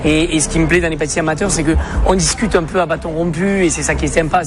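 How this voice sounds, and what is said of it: Noticeable accent. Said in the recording (French): “il y a un accent, lui”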